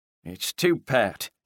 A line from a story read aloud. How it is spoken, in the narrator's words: mumbled